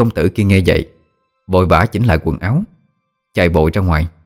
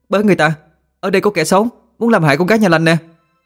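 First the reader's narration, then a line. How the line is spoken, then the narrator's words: Hidden shouting. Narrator (Vietnamese): nấp người vào một góc mà hét lên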